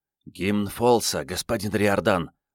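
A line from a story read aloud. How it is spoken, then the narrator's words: Servant whispering in ear. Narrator (Russian): прошептал в самое ухо слуга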